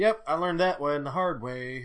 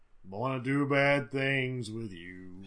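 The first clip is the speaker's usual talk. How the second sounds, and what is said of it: Impression of a True Blood character. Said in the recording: “That's my True Blood impression for the day.”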